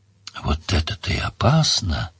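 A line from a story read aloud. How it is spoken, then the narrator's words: Sighing. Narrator (Russian): вздохнул Гаудин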